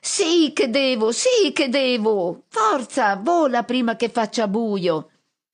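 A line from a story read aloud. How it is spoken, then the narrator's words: Shrieking. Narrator (Italian): Pit-Pit strilla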